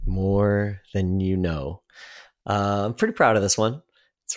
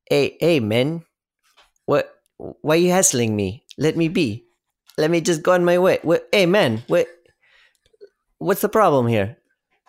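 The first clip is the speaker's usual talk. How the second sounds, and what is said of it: Put-on South African accent. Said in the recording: “you've been working on your South African accent”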